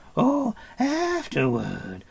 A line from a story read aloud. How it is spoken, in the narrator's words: cried Gurgi